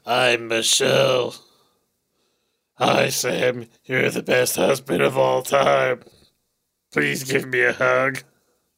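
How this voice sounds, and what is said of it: Imitates another person's voice. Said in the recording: “my impression of you ... I don't have a very feminine sounding voice”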